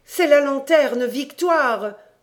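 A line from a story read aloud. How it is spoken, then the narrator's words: Sneering. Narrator (French): Ce fut mon tour de ricaner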